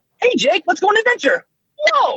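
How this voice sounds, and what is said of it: Higher-pitched younger cartoon character voice. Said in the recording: “more up in my high register... that sounds like the younger kind of closer to what Finn sounds like... a character voice”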